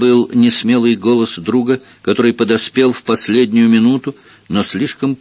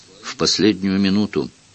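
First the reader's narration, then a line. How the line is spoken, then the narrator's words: Muttered. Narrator (Russian): Кто-то из оставшихся пробормотал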